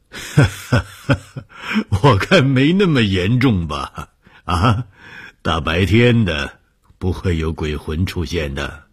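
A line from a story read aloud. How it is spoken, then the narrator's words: Laughing, dismissive. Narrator (Chinese): 红鱼笑了说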